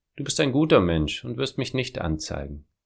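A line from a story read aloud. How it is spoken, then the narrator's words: Calm, unafraid speech. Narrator (German): hatte ich keine Angst und sagte ruhig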